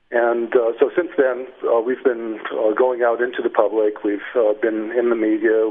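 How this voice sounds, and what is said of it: Canadian English accent. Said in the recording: “you sound like you have an American accent ... I have a Canadian accent.”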